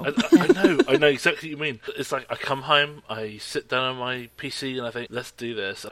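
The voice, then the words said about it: Man speaking with an accent. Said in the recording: “The man with the accent”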